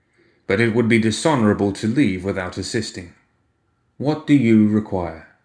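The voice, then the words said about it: Flat, slow voice with shifting accent. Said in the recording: “Had his accent changed? His voice was oddly flat and slow, too, as if he was thinking hard over everything he said. ... The accent had changed. In between phrases, his voice shifted slightly.”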